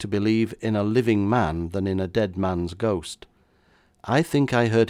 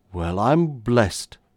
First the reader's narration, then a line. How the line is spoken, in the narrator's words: exclaimed the chief constable once again